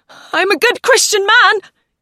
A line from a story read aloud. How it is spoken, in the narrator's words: he shouted as the wind hurled a shower of rain against his cheeks and neck